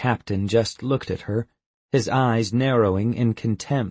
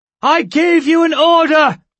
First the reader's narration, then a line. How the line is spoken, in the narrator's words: she shouted